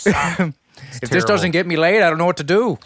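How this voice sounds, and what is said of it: Poor Irish-accented impression. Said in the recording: “Why'd I go Irish? ... It's a terrible impression.”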